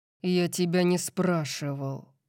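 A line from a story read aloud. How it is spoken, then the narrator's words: Growled. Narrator (Russian): прорычал он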